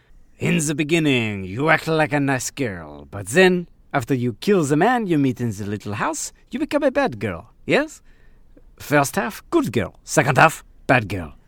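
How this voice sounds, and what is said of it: Bad put-on French accent. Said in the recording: “my bad French accent”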